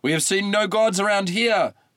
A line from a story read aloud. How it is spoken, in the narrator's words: yelled Tydeus, the braver of the two